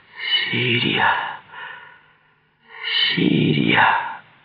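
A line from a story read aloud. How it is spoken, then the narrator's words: Faint moaning call. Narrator (Russian): Стонущий голос позвал едва слышно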